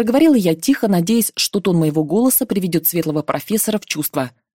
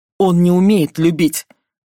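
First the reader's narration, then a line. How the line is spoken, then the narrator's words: Growling. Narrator (Russian): прорычал Фредерик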